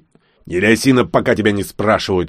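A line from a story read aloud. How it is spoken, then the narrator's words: Furious bark. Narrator (Russian): рявкнул прыгун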